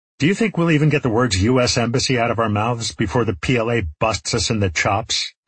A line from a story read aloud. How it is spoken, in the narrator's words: asked Park